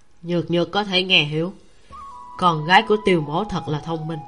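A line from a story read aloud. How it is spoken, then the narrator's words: Soft laugh. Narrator (Vietnamese): Tiêu Tụng khẽ cười nói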